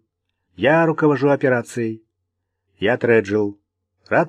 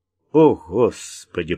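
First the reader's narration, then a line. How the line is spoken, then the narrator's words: Groaning. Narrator (Russian): простонал Вик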